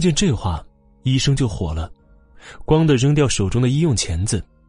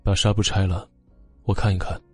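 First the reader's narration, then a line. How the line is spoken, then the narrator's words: Cold command. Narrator (Chinese): 冷冷的命令道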